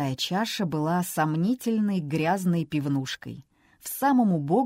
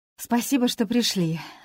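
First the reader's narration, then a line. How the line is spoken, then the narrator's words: Sighing with relief. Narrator (Russian): облегченно вздохнула Лесли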